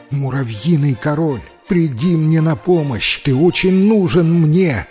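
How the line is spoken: Exclaiming. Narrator (Russian): воскликнул Шарль

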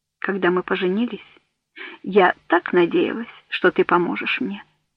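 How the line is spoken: Soft. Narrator (Russian): сказала она мягко

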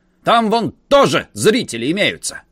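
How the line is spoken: Shouted. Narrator (Russian): крикнул Ка надзирателю

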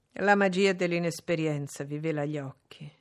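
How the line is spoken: Plain. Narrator (Italian): rispose

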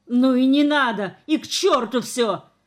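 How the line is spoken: Tearful shout. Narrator (Russian): крикнул Шурка, утирая слезы

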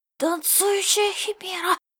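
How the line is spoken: Fearful breathy exhale. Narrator (Russian): выдохнул он, со страхом

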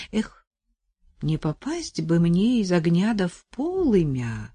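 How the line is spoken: Worried. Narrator (Russian): забеспокоилась Настя

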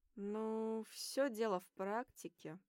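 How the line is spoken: Thoughtful smiling drawl. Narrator (Russian): задумчиво протянул, расплываясь в широкой улыбке

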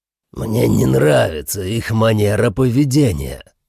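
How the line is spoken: Growling. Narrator (Russian): прорычал спутник Энтио

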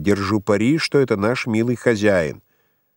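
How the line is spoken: Calm voice in darkness. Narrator (Russian): Голос инженера спокойно сказал в темноте

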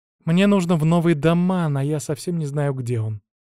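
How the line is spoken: Sighing. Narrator (Russian): вздохнул я

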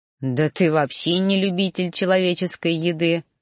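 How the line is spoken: Exasperated snort. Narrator (Russian): фыркнул я, не выдерживая

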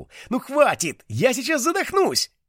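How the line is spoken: Yelling. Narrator (Russian): Мона тоже вопила

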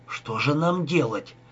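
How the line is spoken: Exhausted whisper. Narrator (Russian): прошептал Рика, совсем обессиленный

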